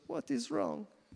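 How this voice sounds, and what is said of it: Poorly done put-on Hebrew accent. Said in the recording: “nice little Hebrew woman ... that's a bad, anyway, bad accent.”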